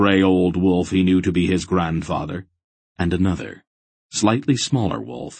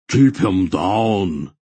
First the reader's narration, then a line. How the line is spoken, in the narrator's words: Barak roared